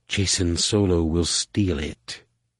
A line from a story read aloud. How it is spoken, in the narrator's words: lean close to him and whispered